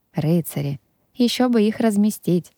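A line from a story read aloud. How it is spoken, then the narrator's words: Heavy sigh. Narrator (Russian): Я тяжело вздохнула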